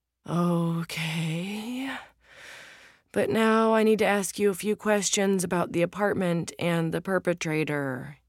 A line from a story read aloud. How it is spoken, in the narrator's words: groans